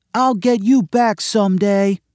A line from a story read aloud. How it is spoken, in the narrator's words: Sydney ran down the street screaming